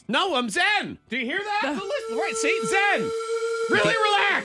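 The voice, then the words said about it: Loud, near-screaming delivery. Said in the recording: “You can't scream over top of it.”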